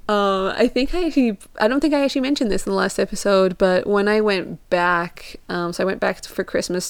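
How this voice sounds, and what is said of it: Mostly American accent, faint European traces. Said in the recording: “They just assume I'm American ... my accent is British/Portuguese when I first moved here, and so there wasn't a distinct Portuguese or British accent there ... my accent just developed over the years. I just, like, picked up the American accent too”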